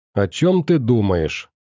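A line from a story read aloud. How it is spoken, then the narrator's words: Displeased grumble. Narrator (Russian): недовольно проворчал дядя Хорхе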